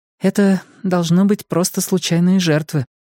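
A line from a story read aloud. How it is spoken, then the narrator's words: Sighing. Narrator (Russian): вздохнула Ильва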